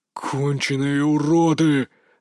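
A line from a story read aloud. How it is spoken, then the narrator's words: Growling. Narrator (Russian): рычал Валерий Наумович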